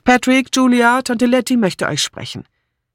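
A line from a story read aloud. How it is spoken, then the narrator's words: Calling out. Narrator (German): Philippa ging in die Halle und rief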